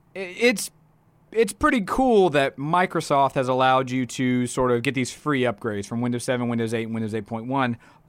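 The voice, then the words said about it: Slightly broken, strained voice. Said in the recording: “my voice is a little broken right now”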